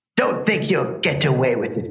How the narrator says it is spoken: growled the Sylvan

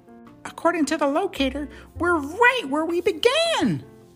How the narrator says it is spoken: she gasped

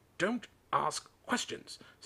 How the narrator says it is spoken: snapped his uncle

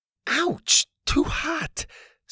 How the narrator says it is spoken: Susie cried

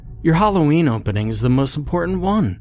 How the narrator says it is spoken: she exclaimed

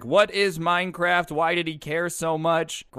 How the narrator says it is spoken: his grandpa starts yelling, asking questions at everyone

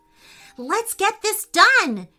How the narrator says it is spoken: shouted Camila

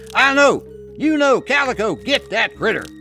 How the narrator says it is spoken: He called out to his dogs

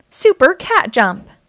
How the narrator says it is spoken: Catboy yells as he races off to help Owlette

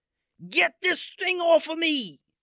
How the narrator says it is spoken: yelled out

